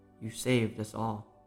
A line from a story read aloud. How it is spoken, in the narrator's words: said his father softly